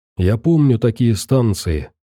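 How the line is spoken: Plain. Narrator (Russian): сказал мастеровой Венику

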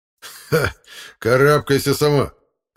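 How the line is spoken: Laughing companion. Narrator (Russian): рассмеялся ее спутник

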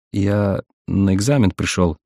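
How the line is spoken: Uncertain voice. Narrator (Russian): неуверенно произнес Сазонов

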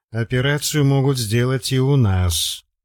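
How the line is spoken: Dejected objection. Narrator (Russian): уныло возразил Костя

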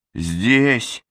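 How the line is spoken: Hoarse reply. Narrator (Russian): Сипло отозвалась

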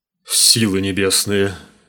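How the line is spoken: Breathed out. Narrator (Russian): выдохнул он

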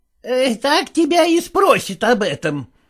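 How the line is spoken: Mother snapping back. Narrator (Russian): огрызнулась мать

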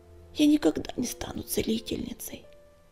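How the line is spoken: Bitter sigh. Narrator (Russian): горько вздохнула

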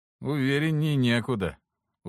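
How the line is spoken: Tired sigh. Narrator (Russian): Устало вздохнул Алексос

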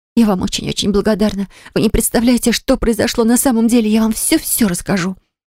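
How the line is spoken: Hoarse rapid chatter. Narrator (Russian): простуженным голосом затараторила

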